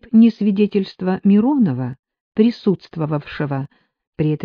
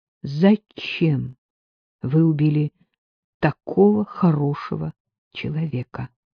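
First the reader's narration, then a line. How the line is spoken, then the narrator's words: Almost tender question. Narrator (Russian): Сталин задал вопрос, прозвучавший почти ласково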